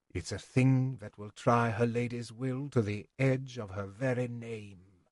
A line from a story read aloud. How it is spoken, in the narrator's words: Burridge said softly